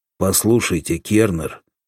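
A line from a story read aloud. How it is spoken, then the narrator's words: Angry. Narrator (Russian): сердито сказал Соломатин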